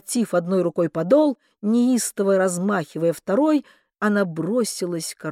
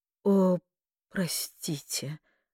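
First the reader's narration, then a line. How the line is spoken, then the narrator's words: Flustered breathy exclamation. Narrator (Russian): растерянно выдохнула она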